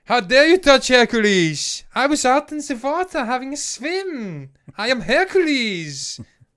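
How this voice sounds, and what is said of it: Imitates another person's voice. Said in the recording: “Arnold Schwarzenegger ... terrible ... Impersonation”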